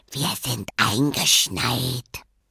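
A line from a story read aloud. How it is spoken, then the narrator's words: Whispering. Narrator (German): Sie flüsterte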